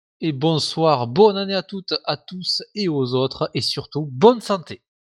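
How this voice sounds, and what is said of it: Southern French accent. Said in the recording (French): “son accent de l'autre sud”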